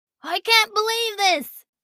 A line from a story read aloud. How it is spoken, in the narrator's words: Bo shouted